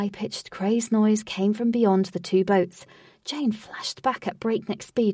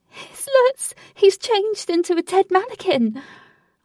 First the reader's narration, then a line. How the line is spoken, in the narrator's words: Frantically, she cried